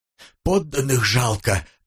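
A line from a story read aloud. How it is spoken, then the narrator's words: Hoarse wheeze. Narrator (Russian): просипел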